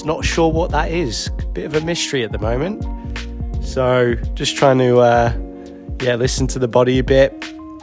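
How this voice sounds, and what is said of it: Slightly unwell, under-the-weather voice. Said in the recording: “A little bit under the weather, probably you can hear from my voice.”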